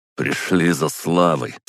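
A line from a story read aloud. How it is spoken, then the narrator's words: Scornful snort. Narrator (Russian): фыркнул Горшков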